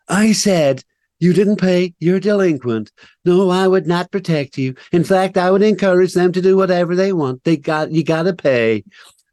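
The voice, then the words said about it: Impression of Donald Trump. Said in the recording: “At least it's more like Trump than Biden before you complain about my impersonation.”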